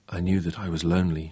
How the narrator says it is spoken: she whispered

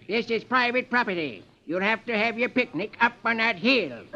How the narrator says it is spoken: a farmer comes up and snaps

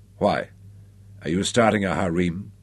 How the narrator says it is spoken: Her voice hardened

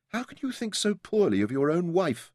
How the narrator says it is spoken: she whispered back

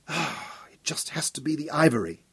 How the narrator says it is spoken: muttered to himself

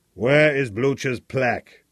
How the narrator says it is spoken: demanded harshly

